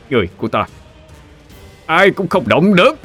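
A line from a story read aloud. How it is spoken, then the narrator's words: Shouting. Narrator (Vietnamese): Câu tiếp theo giống như đang quát lên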